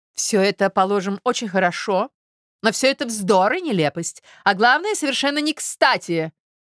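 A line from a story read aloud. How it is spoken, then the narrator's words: Sharp interruption. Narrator (Russian): резко прерывает она Мозглякова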